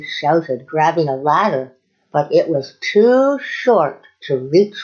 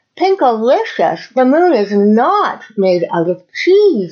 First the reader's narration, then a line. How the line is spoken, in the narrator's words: I yelled with excitement